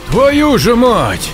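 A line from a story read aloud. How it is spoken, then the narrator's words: Nervous shout. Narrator (Russian): нервно выкрикнул Саня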